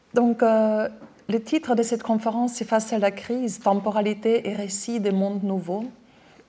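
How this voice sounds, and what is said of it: Austrian accent speaking French. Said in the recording (French): “je suis autrichienne, j'ai un accent ... j'arrive pas à me débarrasser de mon accent”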